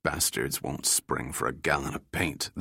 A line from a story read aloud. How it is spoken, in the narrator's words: the engineer muttered